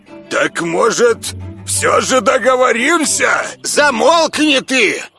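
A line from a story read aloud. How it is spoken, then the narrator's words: Hysterical angry shout. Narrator (Russian): истерично выкрикнул Бульбунарий, гневно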